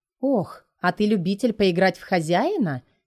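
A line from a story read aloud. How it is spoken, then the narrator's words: Giggling. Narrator (Russian): хихикает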